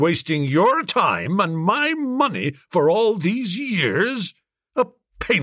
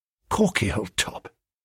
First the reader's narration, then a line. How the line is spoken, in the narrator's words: I whispered faintly